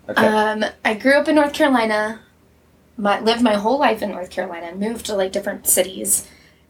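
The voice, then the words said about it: Mild North Carolina Southern accent. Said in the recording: “I am from North Carolina. Do I have an accent? ... Yes. ... But not too bad. ... I started saying y'all again because of you.”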